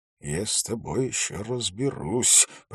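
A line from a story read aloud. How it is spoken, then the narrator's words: Muttered. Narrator (Russian): пробормотал Холт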